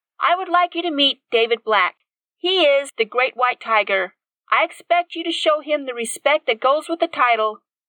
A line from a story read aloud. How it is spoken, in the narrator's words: said in a loud voice